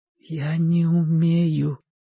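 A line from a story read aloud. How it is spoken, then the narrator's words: Whisper. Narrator (Russian): прошептал Костя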